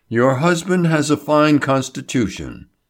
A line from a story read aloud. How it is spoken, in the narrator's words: he said soothingly